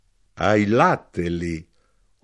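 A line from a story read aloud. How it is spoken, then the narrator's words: Knife-grinder remarking, laughing. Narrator (Italian): osservò l'arrotino e rise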